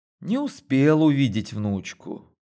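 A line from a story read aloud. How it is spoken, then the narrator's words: Sighing, near tears. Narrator (Russian): вздохнула и чуть не прослезилась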